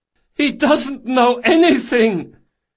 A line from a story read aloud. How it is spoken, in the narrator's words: The last prisoner, as yet untouched, hollered at the top of his voice